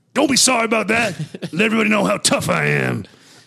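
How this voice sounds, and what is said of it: Imitates another person's voice. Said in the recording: “delivered as Mr. T fully... doing that voice... a distinguished, like an identifiable voice”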